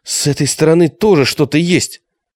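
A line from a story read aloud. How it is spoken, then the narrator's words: Shouted. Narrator (Russian): Алиса крикнула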